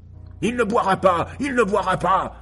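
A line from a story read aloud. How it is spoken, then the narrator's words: Roared. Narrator (French): Ainsi rugit Old Bugs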